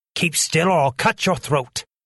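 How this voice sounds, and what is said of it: Terrible, crying-out character voice. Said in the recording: “cried a terrible voice”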